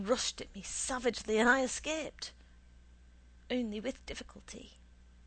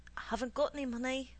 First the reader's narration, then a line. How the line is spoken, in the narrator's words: mumbling